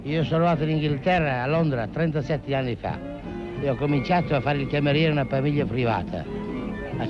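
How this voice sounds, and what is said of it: Regional Romagna Italian accent. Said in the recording (Italian): “Scusi, di dov'è lei? ... Lugo di Romagna. ... Mi pareva dall'accento.”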